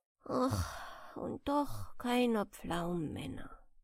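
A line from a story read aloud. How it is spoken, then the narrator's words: Sighed. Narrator (German): er seufzte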